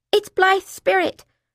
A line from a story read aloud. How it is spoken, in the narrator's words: I shouted